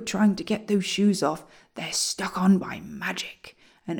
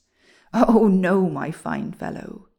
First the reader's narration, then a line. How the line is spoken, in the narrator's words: said the dwarf, chuckling